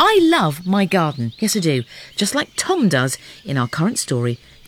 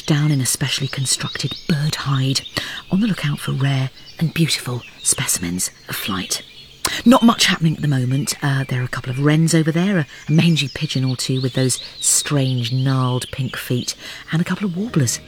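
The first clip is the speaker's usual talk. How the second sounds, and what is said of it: Hushed nature-documentary voice. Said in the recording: “doing the hushed voice”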